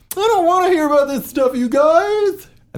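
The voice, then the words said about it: Imitates another person's voice. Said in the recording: “that's actually my best impersonation of your voice”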